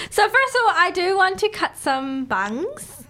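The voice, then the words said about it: Put-on accent. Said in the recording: “I just put on an accent.”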